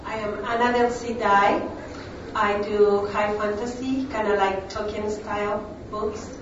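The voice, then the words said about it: Non-native English accent. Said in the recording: “I do speak like this every day. ... I do have an accent. My English is my second language.”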